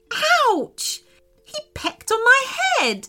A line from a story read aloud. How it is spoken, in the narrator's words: cried Sophia